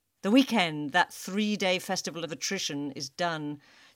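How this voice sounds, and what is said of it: English accent. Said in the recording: “I'm reading it in my English accent that I'm stuck with”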